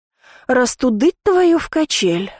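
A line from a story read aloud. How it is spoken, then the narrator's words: Sighing. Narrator (Russian): вздохнула я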